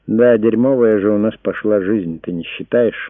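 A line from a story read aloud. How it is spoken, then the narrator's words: Sad. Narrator (Russian): грустно сказала Диана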